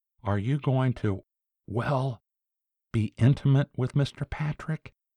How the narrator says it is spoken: Ellsworth leaned forward and almost whispered

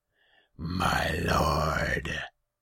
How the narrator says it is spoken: His voice was a rumbling growl befitting his feline head

